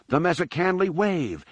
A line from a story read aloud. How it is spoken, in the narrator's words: Anakin squealed